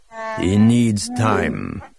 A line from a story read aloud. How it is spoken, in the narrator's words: Atachitkuk growled, somehow without making it sound menacing